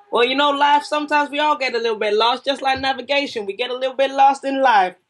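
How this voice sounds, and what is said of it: Put-on Southern accent, done badly. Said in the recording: “That is the worst Southern accent I think I've ever said known to man.”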